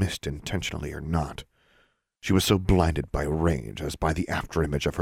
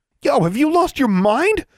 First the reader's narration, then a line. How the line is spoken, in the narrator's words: Freddy shouted